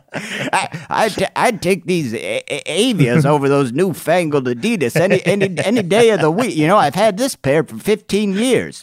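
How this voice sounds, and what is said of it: Old man character voice. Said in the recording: “when ... does an old guy, it sounds a lot like Katharine Hepburn”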